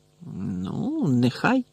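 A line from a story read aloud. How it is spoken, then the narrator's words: Grumbled. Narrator (Ukrainian): буркнула Герміона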